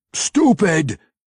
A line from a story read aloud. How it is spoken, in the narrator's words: he yelled